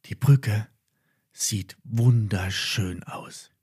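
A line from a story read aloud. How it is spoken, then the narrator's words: Whisper. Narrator (German): flüsterte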